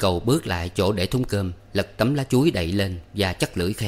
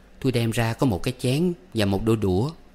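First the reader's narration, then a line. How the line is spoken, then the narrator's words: Smiling. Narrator (Vietnamese): nó mỉm cười nói tiếp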